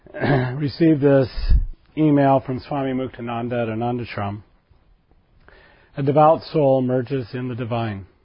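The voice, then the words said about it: Hoarse voice with a cold. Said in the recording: “forgive my voice this morning. It's a little bit hoarse from all the lovely singing last night. And a little bit of a cold.”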